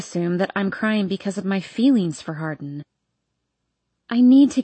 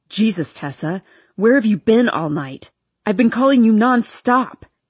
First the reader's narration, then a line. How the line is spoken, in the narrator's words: he shouts